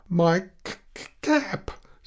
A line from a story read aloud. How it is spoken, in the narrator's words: timidly said the new fellow